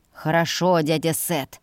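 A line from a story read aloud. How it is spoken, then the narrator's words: Through clenched teeth. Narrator (Russian): процедил брат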